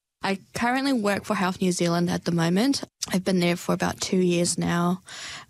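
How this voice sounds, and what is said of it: Slight New Zealand accent. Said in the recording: “slight Kiwi accent”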